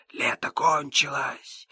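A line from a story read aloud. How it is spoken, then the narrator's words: Wind whispering. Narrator (Russian): ветер прошептал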